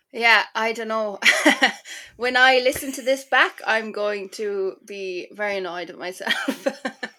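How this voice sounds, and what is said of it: Irish accent. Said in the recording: “Oh my goodness, the accent. ... Irish ... accent”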